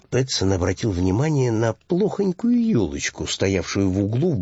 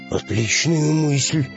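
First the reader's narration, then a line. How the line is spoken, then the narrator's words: Enthusiastic exclamation. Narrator (Russian): с воодушевлением воскликнул рыбак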